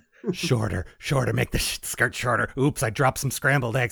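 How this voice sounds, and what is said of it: Imitates another person's voice. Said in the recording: “That's my Gene impression. ... I like it. It's very accurate.”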